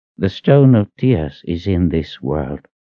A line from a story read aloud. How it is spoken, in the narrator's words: he said in a quiet voice